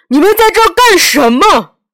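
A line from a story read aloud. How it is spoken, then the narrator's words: Roaring. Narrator (Chinese): 他吼叫道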